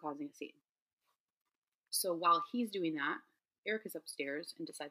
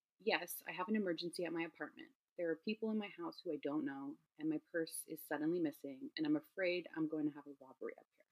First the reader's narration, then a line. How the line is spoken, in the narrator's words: she says, and in a super like calm monotone voice